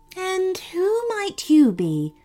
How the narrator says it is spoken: asked the queen gently

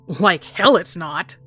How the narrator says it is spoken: snarled

